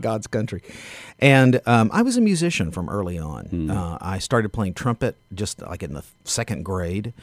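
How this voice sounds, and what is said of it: Southern Tennessee drawl. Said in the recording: “as you can tell from my drawl, I ain't from around here. I'm from Knoxville, Tennessee.”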